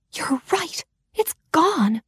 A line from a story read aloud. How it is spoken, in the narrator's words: she whispered back in a horrified voice